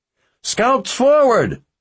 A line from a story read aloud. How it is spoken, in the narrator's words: yelled